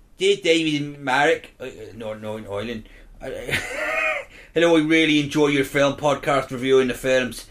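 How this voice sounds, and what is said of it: Put-on Belfast accent. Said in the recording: “please read out in your best Belfast accent. How's your Belfast?”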